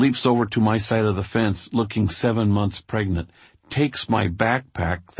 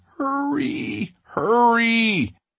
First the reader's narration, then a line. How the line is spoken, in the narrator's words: whining quietly